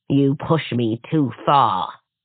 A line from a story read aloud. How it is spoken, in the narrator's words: the crone growled, fury gathering like a storm in her eyes